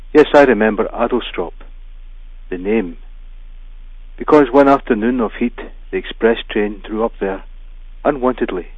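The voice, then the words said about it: Scottish accent, not plummy. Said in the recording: “my not very plummy Scottish accent”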